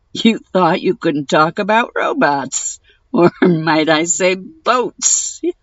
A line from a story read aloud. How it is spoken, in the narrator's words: continued, laughing uproariously